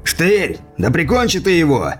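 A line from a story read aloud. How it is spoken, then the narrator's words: Rough shout. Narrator (Russian): грубо крикнул один из налетчиков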